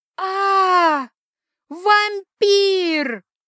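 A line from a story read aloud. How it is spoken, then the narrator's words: Screamed. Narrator (Russian): завопила она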